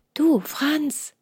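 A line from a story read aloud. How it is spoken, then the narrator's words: Joyful whisper. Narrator (German): flüsterte Hans freudig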